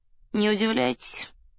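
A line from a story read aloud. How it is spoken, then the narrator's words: Bored voice, peasant. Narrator (Russian): скучным голосом промолвил странный крестьянин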